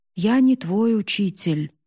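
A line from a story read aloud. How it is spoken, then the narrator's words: Plain. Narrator (Russian): ответил Хикаро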